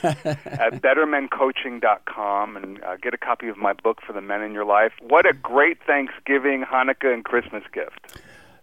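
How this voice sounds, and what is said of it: Deliberately cheerful, upbeat voice. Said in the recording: “I'm putting on a happy voice now”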